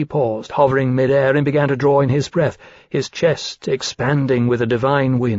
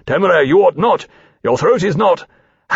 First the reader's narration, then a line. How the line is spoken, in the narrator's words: Lawrence said sharply